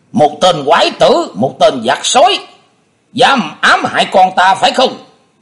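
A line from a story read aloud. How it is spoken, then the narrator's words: Loud angry shouting. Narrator (Vietnamese): có người quát tháo đình tài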